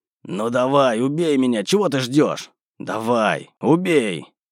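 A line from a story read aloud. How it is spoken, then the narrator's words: Agonized growling. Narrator (Russian): Петр буквально рычал в какой-то странной агонии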